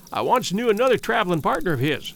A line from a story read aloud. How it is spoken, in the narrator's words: he began quickly